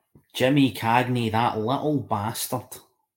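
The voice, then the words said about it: Put-on Scottish accent. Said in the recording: “Do you want me to say that in a Scottish accent?”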